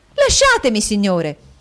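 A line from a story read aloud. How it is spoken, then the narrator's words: Angry exclamation. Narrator (Italian): esclamò col cuore gonfio di collera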